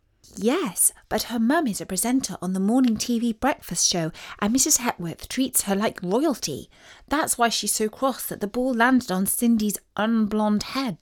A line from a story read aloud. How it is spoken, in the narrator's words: whispered back Isis